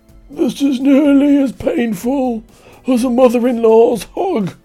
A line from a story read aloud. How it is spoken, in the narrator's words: In a weak voice, shouted up